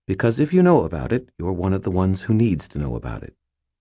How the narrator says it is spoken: she replied calmly

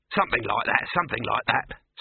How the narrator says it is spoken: snapped Dibbler, glaring at him

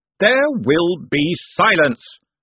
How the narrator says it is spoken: shouted Veterinari

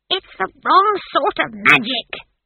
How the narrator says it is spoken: screeched Granny

